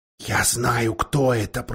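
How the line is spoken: Whisper. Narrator (Russian): прошептал Питер

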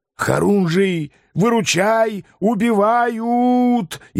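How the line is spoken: Hysterical yell. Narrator (Russian): истерично заорал Шлема

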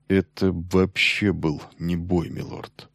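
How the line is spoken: Slow. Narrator (Russian): медленно ответил Бас

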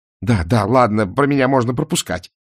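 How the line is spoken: Irritated bark. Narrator (Russian): раздраженно рявкнул Мор

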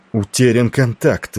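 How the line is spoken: Exclaimed. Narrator (Russian): воскликнул Велери

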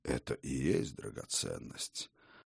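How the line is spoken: Gloomy old man. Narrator (Russian): проговорил старый Хрофт, мрачно

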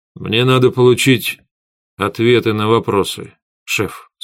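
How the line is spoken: Plain. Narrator (Russian): сказал я

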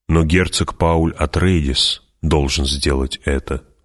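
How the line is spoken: Plain. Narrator (Russian): сказал он

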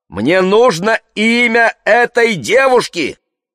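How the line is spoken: Shouted into phone. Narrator (Russian): крикнула она в трубку

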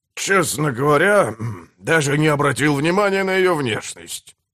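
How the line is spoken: Mumbled. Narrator (Russian): промямлил он

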